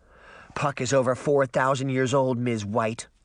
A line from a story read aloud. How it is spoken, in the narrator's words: Sabrina grumbled